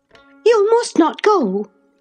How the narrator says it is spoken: she exclaimed energetically

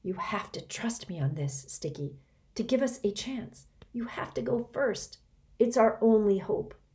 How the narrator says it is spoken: Reynie whispered

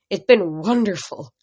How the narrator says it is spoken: Travis Stoll said wistfully

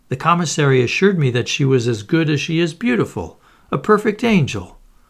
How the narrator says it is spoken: cried

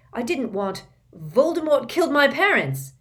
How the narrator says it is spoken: Harry spluttered

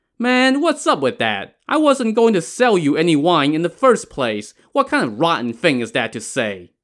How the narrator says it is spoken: he scoffed and said to Yang Zhi

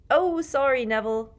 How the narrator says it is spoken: Fred shouted over all the laughter

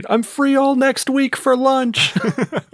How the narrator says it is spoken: Birdman's yelling from across the street

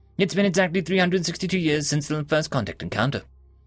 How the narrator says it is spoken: she quickly uttered

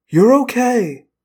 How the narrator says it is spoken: I told Axe soothingly

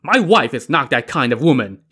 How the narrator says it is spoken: he barked at Yan Qing

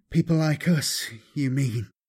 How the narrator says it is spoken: Kaladin added mournfully

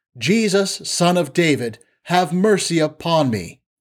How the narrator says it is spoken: He cried out

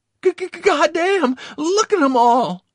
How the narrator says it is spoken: he exclaimed in awe

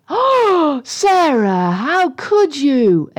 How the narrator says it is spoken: exclaimed Katie through a zillion fries, all sticking out of her mouth

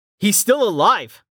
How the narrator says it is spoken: Rain shouted

